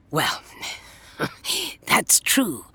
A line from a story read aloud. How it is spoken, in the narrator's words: the Doctor chuckled